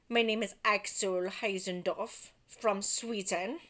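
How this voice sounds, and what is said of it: Poorly done Swedish accent. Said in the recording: “that's probably a really fucking butchered Swedish accent”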